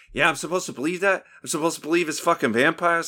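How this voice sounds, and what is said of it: Boston accent imitation. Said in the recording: “with a very Boston question mark accent.”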